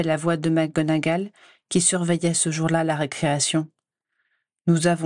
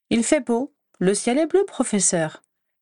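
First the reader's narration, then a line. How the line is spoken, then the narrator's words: Light tone. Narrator (French): répondis-je d'un ton léger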